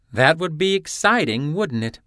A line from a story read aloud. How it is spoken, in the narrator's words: Hopkins chuckled